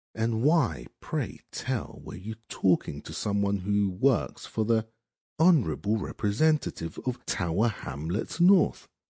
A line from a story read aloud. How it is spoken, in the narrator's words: purred